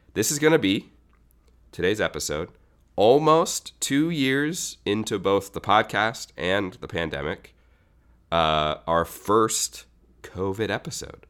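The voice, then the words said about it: Congested, clogged nasal voice. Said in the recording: “as you might be able to hear in my voice, nasal passage, sound clogness”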